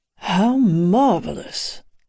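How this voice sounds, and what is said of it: Sexy British accent. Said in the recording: “a familiar voice with a sexy British accent.”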